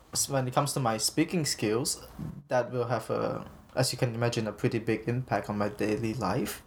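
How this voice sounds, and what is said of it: Noticeable accent, fast mumbled speech. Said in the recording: “my accent... makes it hard for people to understand what I'm saying... I speak very quickly, and I speak like I mumble a lot”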